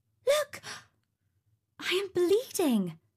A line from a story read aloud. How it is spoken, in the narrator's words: she exclaimed